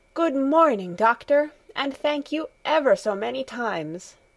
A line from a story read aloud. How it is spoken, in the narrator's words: exclaimed in the joy of her heart